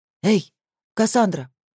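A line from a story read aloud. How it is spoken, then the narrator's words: Hoarse whisper. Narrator (Russian): Алишер старался говорить громко, но получался лишь хриплый шепот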